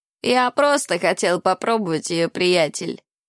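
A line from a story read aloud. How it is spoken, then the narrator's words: Giggling. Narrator (Russian): хихикнул он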